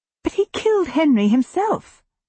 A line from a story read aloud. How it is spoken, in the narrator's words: I exclaim